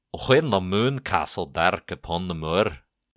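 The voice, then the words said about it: Put-on Scottish accent. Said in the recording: “You challenged me to a Scottish accent.”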